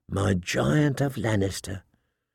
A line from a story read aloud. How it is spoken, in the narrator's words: she purred